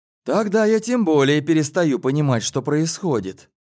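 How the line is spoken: Sighing. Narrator (Russian): вздохнул я

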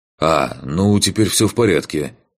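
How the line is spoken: Wry grunt. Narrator (Russian): хмыкнул

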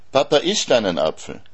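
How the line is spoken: Shouting. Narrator (German): schreit der Valentin

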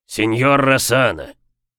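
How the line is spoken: Barked. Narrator (Russian): рявкнул Брукс

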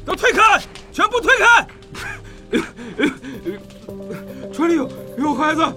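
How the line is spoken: Roaring. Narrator (Chinese): 仁义大吼道

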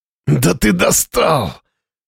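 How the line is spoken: Hoarse curse, straining. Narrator (Russian): С хрипом выругался на это Слава, пытаясь встать

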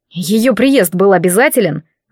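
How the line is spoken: Angry, through clenched teeth. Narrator (Russian): зло процедил незнакомец

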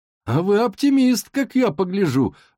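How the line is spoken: Exclaiming. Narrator (Russian): воскликнул он

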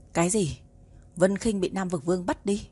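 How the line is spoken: Angry roar. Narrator (Vietnamese): Tiếng gầm giận dữ

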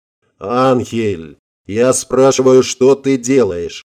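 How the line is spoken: Impatient growl. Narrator (Russian): Не дождавшись ответа, зарычал Эль Диабло

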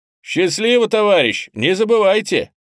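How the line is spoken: Loud. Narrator (Russian): И громко

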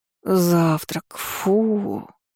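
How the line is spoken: Groaning from bed. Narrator (Russian): простонала Тейка с постели

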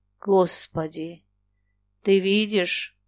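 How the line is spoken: Muffled whisper. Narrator (Russian): глухо шептал Игнат

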